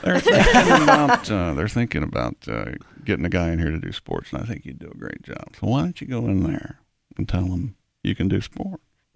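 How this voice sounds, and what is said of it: Impression of a colleague's father. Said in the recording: “do you know I do an impression of your father? ... It's pretty close.”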